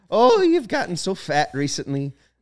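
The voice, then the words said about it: Frail old lady voice, Irish brogue. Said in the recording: “older white lady's voice ... you got to be frail ... you gotta talk like up here, and then you gotta go down ... You gotta say it really nicely ... You're doing like a Irish brogue too”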